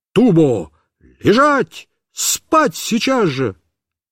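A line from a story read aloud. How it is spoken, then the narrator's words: Shouting. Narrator (Russian): закричал на нее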